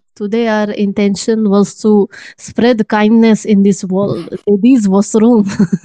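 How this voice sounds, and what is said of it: Russian accent. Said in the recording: “Beautiful, beautiful accent from my Russian friend.”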